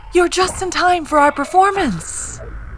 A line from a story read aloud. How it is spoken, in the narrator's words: the ringmaster said, his lips stretched over his yellowing teeth